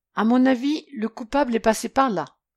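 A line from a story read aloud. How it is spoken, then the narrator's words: Exclaiming. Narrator (French): s'exclama-t-il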